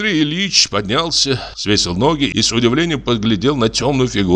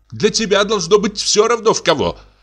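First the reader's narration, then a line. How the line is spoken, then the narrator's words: Shout. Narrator (Russian): крикнула Софья Петровна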